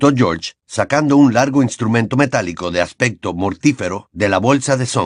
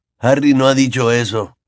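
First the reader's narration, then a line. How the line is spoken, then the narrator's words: Grumbled. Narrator (Spanish): gruñó Fred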